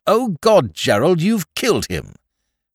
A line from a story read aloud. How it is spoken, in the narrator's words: exclaimed at once